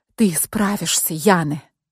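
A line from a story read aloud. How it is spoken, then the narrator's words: Whispered. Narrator (Russian): прошептала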